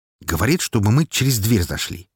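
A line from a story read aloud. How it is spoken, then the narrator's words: Slightly irritated. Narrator (Russian): немного раздраженно передал я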